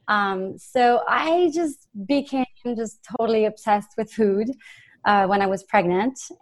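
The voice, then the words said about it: French accent. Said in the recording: “I'm originally from France. You probably hear the accent.”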